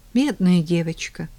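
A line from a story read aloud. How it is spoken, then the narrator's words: Fake sigh. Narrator (Russian): фальшиво вздохнула я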